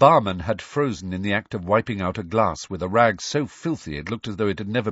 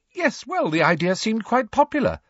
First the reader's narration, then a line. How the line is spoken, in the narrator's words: said Hermione happily